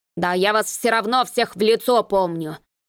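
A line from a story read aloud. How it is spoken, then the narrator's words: Growling, unimpressed caretaker. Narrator (Russian): прорычал дворник, ничуть не впечатлившись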